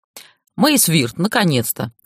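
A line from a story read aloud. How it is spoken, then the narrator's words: Beaming young man exclaiming. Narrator (Russian): воскликнул парень, сияя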